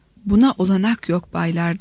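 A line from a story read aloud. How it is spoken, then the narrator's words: Stammering. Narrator (Turkish): diye kekeledi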